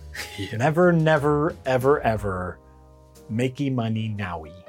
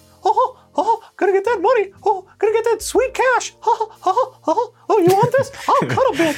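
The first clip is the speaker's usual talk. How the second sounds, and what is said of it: Mock voice impersonating Disney. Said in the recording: “That's my Disney impression.”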